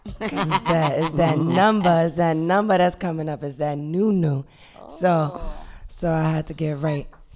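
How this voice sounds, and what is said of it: Hoarse, strained voice. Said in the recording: “My voice is crazy... I've been screaming... I've been yelling... you're going to get this voice for the rest of the night”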